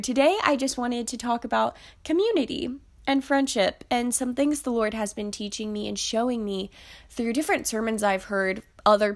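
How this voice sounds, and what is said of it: Nasal, congested voice from a cold. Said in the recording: “I sound super nasally ... I've kind of gotten a little bit of a cold ... less fun to listen to, less melodious”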